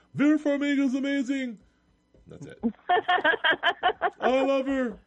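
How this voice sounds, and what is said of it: Impression of Joe Sanfilippo. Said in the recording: “his Joe Sanfilippo impersonation. It was really good. Last night's was better”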